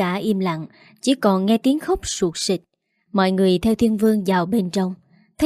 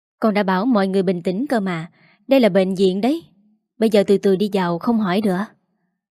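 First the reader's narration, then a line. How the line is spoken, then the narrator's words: Long weary sigh. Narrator (Vietnamese): Thiên Vương thở dài thường thượt rồi bảo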